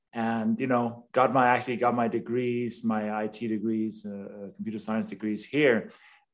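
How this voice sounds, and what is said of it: Danish accent. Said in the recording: “I was born and raised in Denmark, hence the name and the accent”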